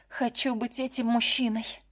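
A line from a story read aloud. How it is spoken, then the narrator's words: Whispered. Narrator (Russian): Джессика наклонилась ко мне и прошептала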